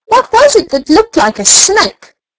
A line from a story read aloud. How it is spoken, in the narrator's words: howled Nip